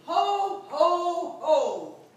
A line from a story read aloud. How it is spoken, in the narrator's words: Taking a deep breath and forcing a smile on his face, bellowing a hearty